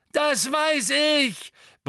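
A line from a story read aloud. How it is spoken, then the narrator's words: Bellowed. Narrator (German): brüllte Neville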